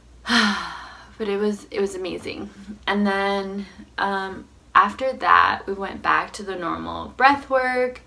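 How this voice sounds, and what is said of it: Strained, partly lost voice. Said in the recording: “my voice is funny right now, because it kind of went out because I was like really screaming”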